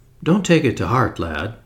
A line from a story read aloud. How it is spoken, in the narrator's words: said kindly